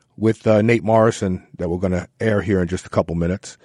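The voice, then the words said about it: Hoarse, throaty voice. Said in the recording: “I've got a frog in my throat.”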